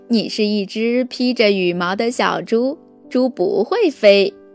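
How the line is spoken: Monkey laughing loudly. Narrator (Chinese): 猴子大笑着说

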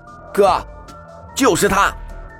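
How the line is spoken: Cold sneer. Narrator (Chinese): 林鸾 冷声嗤笑

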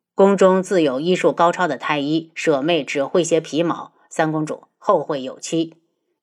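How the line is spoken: Deep grave voice. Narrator (Chinese): 花希墨沉声

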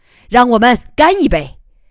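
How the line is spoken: Happy shout. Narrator (Chinese): 他高兴的喊

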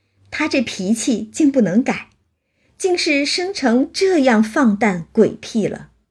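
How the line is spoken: Laughing. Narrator (Chinese): 秀烟笑道

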